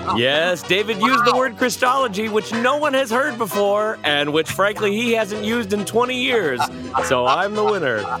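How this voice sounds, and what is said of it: Weak game show host voice. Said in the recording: “How sad did my voice sound trying to do a game show voice? I can't even do it.”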